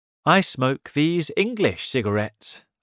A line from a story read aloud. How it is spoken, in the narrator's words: I said